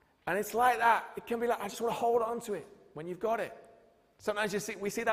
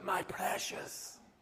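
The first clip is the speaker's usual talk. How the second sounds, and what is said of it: Gollum voice impression. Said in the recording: “do an amazing impression of Gollum”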